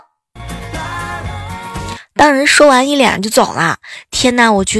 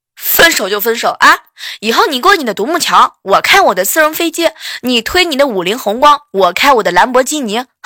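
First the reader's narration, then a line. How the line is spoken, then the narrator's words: Yelling. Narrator (Chinese): 那个女生大吼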